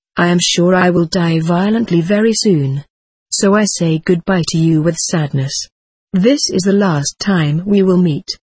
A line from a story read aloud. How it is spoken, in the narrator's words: Arago repeated in a sad, soft tone